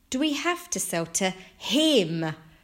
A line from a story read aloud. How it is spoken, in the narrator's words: Franklin cried